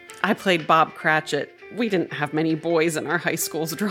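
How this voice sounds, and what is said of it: Usual voice. Nothing is said of it.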